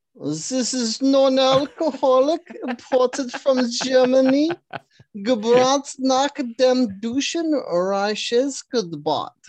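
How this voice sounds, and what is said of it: Put-on German accent. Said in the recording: “Do it with the German accent.”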